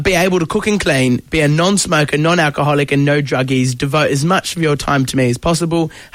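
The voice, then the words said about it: Put-on English accent. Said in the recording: “Oh, sorry, I've lost the English accent.”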